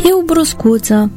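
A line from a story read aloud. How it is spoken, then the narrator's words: Laughing. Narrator (Romanian): râse preotul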